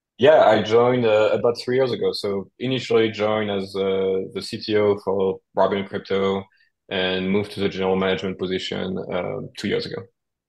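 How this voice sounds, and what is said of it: French-accented English. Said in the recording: “you are from France. You're a Frenchy friend... Apologies in advance for the accent.”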